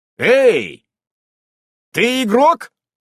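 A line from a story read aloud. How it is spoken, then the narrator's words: Loud question. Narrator (Russian): громко спрашиваю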